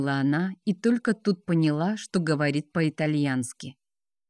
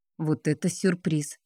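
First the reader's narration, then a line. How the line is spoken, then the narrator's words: Muttered. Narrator (Russian): пробормотала Елизавета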